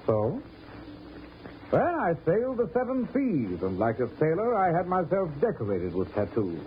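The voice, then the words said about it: British accent. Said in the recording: “With a British accent?”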